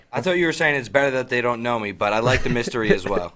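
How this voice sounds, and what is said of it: Heavy Northeastern US accent. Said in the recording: “mysterious Northeasterner with a heavy accent”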